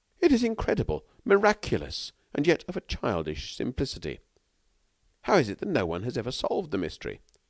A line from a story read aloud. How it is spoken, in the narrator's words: He exclaimed